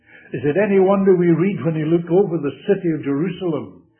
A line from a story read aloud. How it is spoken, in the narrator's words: he cried out